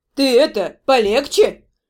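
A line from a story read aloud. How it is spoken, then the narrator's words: Grumbling mutter. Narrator (Russian): пробурчала Дора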